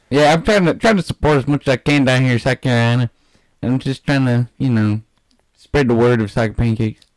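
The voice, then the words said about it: Speaks with a regional accent. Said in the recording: “You making fun of my accent?”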